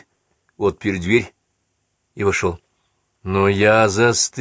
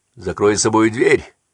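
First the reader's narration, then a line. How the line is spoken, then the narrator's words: Shout. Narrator (Russian): прокричал Хенкель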